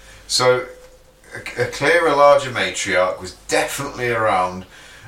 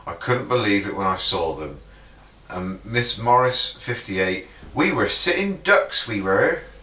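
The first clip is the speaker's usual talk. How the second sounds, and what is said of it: Put-on Devon West Country accent. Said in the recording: “Oh, was that a Devon accent? ... That was a West Country. ... More of a Devon West Country”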